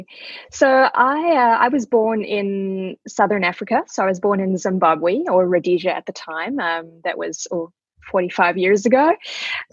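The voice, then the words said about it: Distinctive non-North American accent. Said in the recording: “I love your voice ... What's that accent?”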